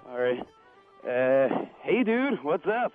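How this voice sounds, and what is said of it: American California surfer accent. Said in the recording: “American accent ... it's going to be pretty bad ... That's good. You sound more of an American than I do, actually ... kind of they go California surfer”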